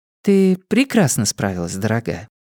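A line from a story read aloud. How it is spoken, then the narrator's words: Tender, affectionate. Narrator (Russian): ласково произнесла София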